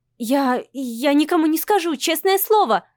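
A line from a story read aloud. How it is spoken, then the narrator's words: Frightened nervous babbling. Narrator (Russian): лепечет Ира, испуганно и нервно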